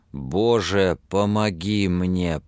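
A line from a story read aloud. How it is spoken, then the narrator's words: Groaning aloud. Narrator (Russian): простонал вслух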